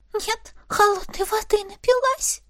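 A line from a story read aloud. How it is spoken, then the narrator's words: Cautious whisper. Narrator (Russian): прошептала, не рискуя пищать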